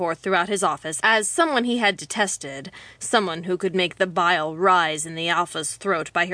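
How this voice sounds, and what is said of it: Usual voice. Nothing is said of it.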